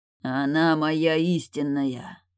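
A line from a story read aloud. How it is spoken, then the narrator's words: Growled. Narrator (Russian): зарычал Теодрик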